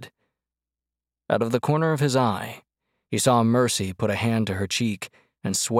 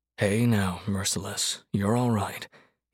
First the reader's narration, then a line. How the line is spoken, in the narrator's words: he told her softly